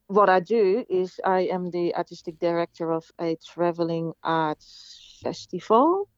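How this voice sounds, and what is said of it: Dutch accent. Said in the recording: “I've got an accent and I'm from the Netherlands originally”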